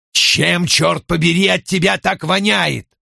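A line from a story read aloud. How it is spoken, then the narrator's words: Roaring. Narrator (Russian): взревел он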